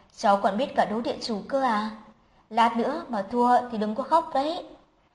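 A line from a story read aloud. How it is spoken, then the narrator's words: Laughing. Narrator (Vietnamese): Giang Việt bật cười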